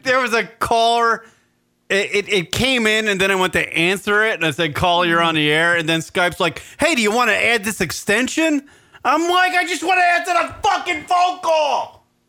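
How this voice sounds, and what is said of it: Shouting in frustration. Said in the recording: “you're yelling. Don't look at me. Feel like you're yelling”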